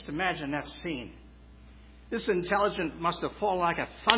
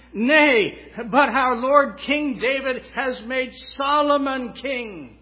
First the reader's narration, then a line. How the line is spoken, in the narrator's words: Jonathan exclaims